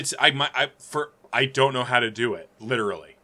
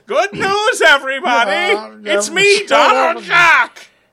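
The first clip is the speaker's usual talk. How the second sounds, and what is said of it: Imitates Professor Farnsworth cartoon voice. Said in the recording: “to do a Professor Farnsworth from Futurama”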